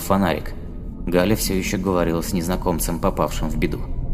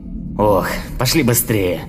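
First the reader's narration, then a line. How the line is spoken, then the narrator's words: Old man grumbling, displeased. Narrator (Russian): проворчал недовольно старик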